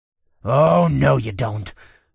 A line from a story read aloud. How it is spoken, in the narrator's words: snarled